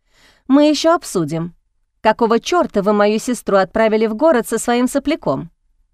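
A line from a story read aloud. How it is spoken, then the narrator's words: Laughing young woman. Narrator (Russian): Девушка рассмеялась и пообещала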